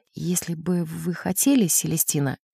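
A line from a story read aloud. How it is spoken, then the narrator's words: Very quiet. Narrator (Russian): очень тихо сказал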